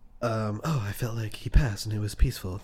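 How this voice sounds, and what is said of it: Imitates a film character's voice. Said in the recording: “That's my Rey impersonation.”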